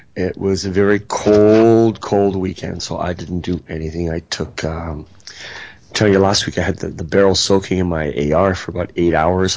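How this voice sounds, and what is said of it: Voice strained from illness. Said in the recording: “Excuse my voice. I'm dying tonight.”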